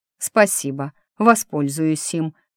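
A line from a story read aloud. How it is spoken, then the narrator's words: Elf speaking through teeth. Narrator (Russian): процедил сквозь зубы эльф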